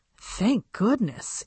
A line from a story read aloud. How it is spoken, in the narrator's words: Annabelle muttered to Tiffany